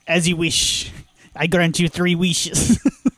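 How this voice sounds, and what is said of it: Wishmaster character voice. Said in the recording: “This is my Wishmaster impression.”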